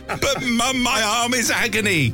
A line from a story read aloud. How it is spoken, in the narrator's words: He screamed